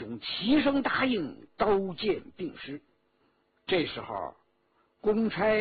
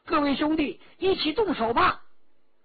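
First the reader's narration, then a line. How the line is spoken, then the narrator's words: Shouting. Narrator (Chinese): 陈家洛 喊着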